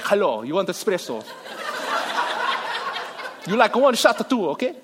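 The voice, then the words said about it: Put-on foreign accent. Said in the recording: “I don't even know what that accent is. What a nationality is that?”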